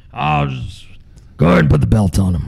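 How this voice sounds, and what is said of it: Imitates another person's voice. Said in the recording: “That's my Vince impersonation. ... It's a good one. It's a good one.”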